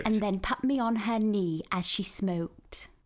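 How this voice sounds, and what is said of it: RP accent, like tube announcements. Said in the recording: “your RP accent ... it definitely works, but it sounds like, you sound like you're doing tube announcements”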